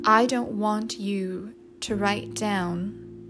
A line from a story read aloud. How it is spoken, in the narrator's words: said Katie, slowly and steadily